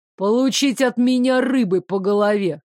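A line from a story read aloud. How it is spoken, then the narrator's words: Growl from behind. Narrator (Russian): рыкнул сзади Арчи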